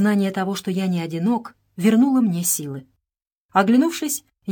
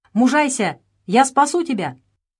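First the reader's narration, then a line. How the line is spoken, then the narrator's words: Shouting. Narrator (Russian): кто-то ... кричал мне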